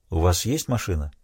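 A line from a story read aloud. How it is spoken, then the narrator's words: Plain question. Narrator (Russian): спросил Крейг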